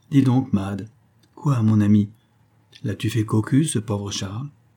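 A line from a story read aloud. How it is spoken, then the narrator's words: Disdainful murmur. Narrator (French): Elle murmura dédaigneuse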